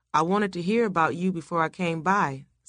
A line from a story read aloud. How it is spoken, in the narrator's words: said Son